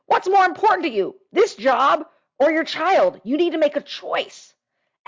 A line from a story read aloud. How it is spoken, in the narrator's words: She screamed at me, saying